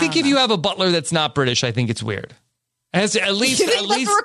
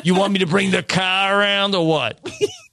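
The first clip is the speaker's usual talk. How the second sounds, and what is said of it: Put-on Long Island accent. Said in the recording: “I want like a Long Island.”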